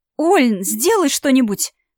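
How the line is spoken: Exclaiming. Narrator (Russian): воскликнула я

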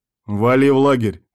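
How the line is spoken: Barked order. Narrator (Russian): рявкнул шеф

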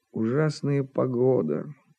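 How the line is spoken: Muttered. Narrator (Russian): пробормотал Жирков

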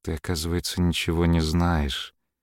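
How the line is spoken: Quiet. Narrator (Russian): тихо сказала наконец

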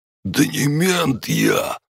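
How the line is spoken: Wheezing harder. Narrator (Russian): он хрипел еще сильнее

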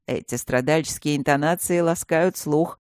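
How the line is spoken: Mocking. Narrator (Russian): насмешливо отозвался он

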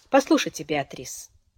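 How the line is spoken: Quiet. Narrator (Russian): негромко сказал Хиль

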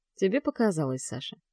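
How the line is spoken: Even, level voice. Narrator (Russian): ровным голосом произносит Стас

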